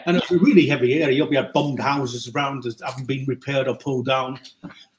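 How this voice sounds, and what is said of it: Middlesbrough accent. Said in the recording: “you're very much kind of Boro born and bred ... you haven't lost your accent. And I'm not going to either.”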